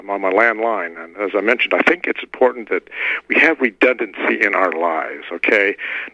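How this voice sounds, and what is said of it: Hoarse, strained voice. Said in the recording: “I'm hoarse, and it's from talking to many stations, but also yelling at the crows out back”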